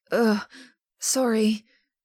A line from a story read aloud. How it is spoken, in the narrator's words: grunts